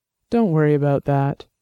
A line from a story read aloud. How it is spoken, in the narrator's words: said, keeping his voice calm and soothing